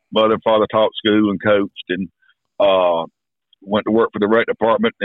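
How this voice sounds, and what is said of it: Northwest Georgia Southern US accent. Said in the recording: “my accent sort of gets me away that I'm not a native ... I'm from Northwest Georgia”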